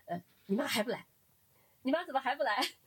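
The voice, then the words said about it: Heavy rural Beijing suburban accent. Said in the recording (Chinese): “很浓重的这个，我忘了他是密云的还是平谷的口音”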